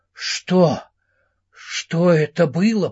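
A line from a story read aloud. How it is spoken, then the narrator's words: Stammering mutter. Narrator (Russian): пробормотал он, запинаясь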